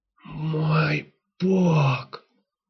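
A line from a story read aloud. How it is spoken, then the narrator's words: Whisper. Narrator (Russian): Только и прошептал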